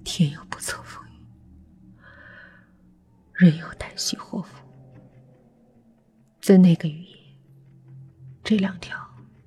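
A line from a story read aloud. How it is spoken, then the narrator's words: Trembling voice. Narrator (Chinese): 于峰声音有些发抖的说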